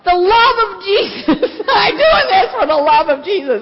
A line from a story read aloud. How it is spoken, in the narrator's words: he is shouting out